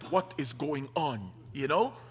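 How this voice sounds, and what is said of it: Heavy Middle Eastern accent. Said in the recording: “my dad gets out of the car with his heavy Middle Eastern accent”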